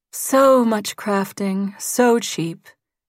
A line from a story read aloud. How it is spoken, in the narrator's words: Janelle said wistfully